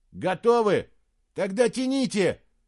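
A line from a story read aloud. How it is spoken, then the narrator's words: Shouted. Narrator (Russian): крикнул он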